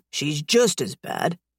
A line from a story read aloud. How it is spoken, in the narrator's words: he mutters to himself